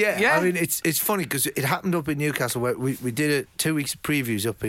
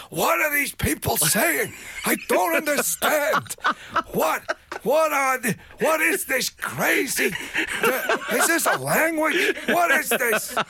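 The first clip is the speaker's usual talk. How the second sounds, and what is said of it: Mel Brooks impression. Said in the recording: “That's a fantastic Mel Brooks impression”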